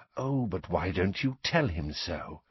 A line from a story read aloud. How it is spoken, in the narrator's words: whispered Snape